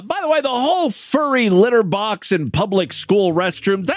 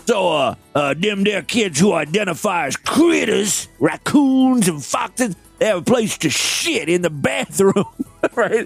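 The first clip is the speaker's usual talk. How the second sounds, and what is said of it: Bad put-on Southern accent. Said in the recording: “I don't know what accent I'm doing here. Now, that is a bad Southern accent.”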